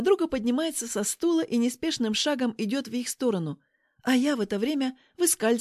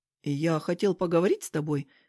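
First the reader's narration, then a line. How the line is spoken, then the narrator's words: Plain. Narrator (Russian): говорит он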